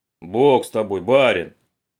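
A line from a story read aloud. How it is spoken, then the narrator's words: Grumbling. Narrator (Russian): проворчал Клим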